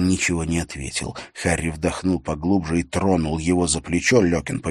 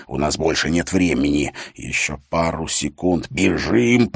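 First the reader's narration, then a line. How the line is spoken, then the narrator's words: Hissed through teeth. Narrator (Russian): прошипел Харри сквозь зубы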